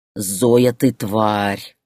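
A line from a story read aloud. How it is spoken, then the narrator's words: Growl into phone. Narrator (Russian): прорычал он в трубку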